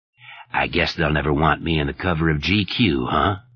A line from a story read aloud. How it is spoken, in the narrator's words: Stark asked